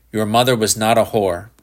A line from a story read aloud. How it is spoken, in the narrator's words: Shepherd said sharply